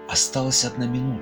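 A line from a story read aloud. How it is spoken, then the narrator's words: Whispered. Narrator (Russian): Некоторые передавали шепотом друг другу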